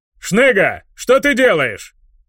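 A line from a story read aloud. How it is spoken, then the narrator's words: Barking. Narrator (Russian): Рявкнула Аарам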